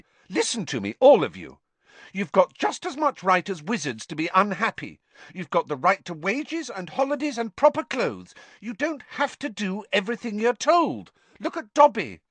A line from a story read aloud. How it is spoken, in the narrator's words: said Hermione angrily